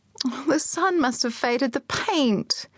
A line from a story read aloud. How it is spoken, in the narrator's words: Suzanne wailed